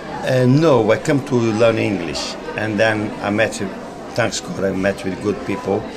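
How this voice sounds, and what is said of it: Speaks with a foreign accent. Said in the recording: “You've still got the accent, a bit like myself.”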